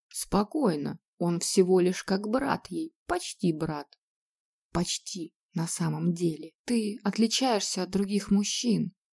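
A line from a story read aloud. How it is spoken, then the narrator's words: Quiet. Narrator (Russian): тихо сказала она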